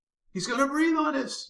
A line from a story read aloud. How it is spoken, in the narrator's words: Jimmy exclaimed